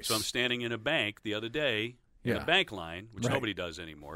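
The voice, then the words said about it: Articulate clean radio announcer voice. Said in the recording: “it's like a radio guy voice ... You've got a very nice, articulate, clean radio voice.”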